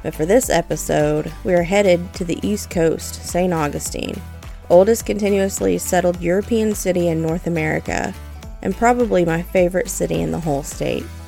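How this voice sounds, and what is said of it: Stuffy, allergy-affected voice. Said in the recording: “you may be able to tell by my voice, we are under a blanket of thick, thick pollen. I'm feeling it, guys.”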